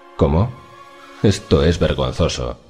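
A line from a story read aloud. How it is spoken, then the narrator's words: Murmured. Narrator (Spanish): murmuró Elliot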